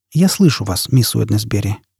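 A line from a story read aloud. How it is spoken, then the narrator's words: Quiet speech. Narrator (Russian): тихо проговорил Фойл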